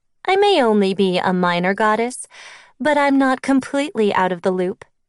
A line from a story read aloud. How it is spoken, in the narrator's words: Keone laughed